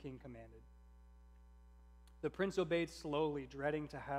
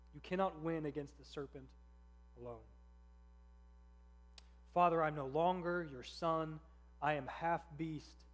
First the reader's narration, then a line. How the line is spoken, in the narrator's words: sobbed the prince